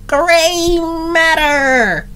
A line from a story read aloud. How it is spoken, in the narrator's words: called out